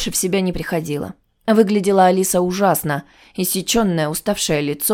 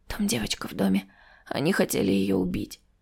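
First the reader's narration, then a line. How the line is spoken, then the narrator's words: Whisper. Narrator (Russian): прошептав мужу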